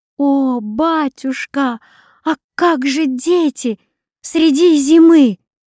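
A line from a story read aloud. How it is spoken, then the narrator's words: Loud piercing cry. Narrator (Russian): Доротея громко пронзительно вскричала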